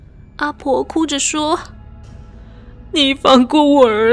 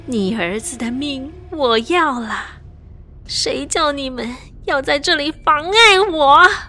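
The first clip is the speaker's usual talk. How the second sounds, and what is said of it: Female-sounding possessed voice. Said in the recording (Chinese): “用女性的声音”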